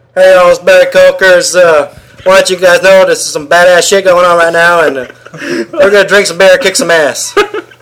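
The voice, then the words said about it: Comedic character voice. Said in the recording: “Do your Barry Coker voice.”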